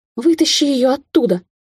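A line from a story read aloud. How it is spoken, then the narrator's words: Panicked scream. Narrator (Russian): завопила Кейтлин, чувствуя, как копошатся в волосах маленькие когтистые лапки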